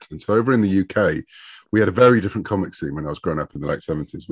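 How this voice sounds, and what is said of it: British accent. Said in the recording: “you should probably tell from my accent, I'm a Brit”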